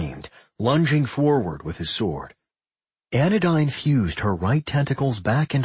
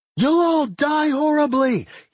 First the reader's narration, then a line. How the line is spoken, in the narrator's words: he screeched